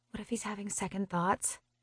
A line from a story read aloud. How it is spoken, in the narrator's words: I murmur, voicing my biggest fear